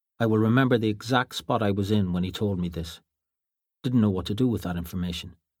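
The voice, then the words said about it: Irish accent, brisk narration. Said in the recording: “Oh, that beautiful Irish accent. ... Brisk narration.”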